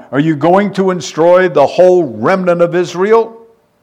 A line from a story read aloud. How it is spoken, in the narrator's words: overwhelmed by the magnitude of this judgment, he cried out